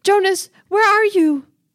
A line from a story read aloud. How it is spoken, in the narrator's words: yells down the hall